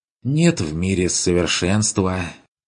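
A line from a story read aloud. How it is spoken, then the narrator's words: Mock-melancholy sigh. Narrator (Russian): вздохнул Бруно с напускной тоскливостью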